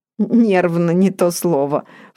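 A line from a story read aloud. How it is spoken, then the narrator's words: Snorting. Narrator (Russian): фыркнула Вера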